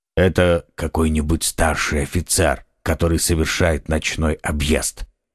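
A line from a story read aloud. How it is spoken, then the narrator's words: Said quietly. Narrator (Russian): тихо сказал Атос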